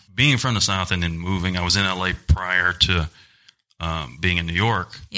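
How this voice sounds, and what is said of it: Southern American accent. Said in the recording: “you can tell my Southern accent”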